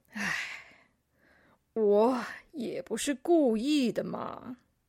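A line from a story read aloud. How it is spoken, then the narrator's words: Sighing. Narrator (Chinese): 变色龙叹了一口气说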